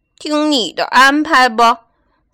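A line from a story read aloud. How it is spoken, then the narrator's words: Sighing. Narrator (Chinese): 小猪叹了口气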